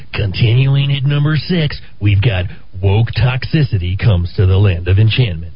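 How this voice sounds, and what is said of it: Imitates a radio countdown host's voice. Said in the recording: “you did such a great job of the Casey Kasem impersonation yesterday”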